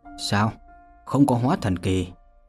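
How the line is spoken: Muttering to himself. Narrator (Vietnamese): Vô Lâm thì thào tự nói

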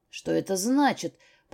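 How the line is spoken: Angry growl. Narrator (Russian): прорычал он

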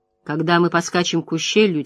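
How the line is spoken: Quiet. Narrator (Russian): тихо произнес он

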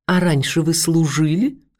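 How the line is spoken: Sweet-voiced question. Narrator (Russian): сладким голосом поинтересовался

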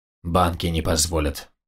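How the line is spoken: Gruff mutter. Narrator (Russian): буркнул Герхард

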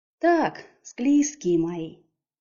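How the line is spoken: Fawning little voice. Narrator (Russian): заискивающим голоском обратилась

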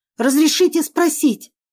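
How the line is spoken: Female exclamation. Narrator (Russian): воскликнула

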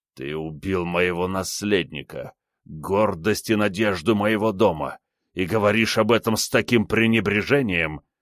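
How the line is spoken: Growled through gritted teeth. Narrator (Russian): сквозь зубы прорычал он

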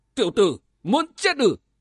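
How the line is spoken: Big man's loud bellow. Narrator (Vietnamese): Tên đại hán quát lớn

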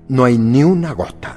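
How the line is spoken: Displeased exclamation. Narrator (Spanish): exclamó con descontento

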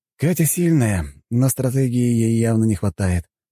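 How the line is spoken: Sighing. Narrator (Russian): вздохнул

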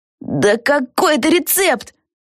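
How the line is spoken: Exclamation. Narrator (Russian): воскликнула Криспи

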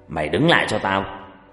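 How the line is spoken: Loud shout. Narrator (Vietnamese): Ông Long quát lớn

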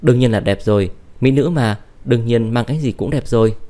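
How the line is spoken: Laughing. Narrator (Vietnamese): Uông Thủy Mạt bật cười

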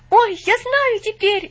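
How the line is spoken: Sudden cry. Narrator (Russian): неожиданно вскрикнул он

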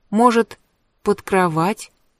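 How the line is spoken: Uncertain suggestion. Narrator (Russian): неуверенно предположила

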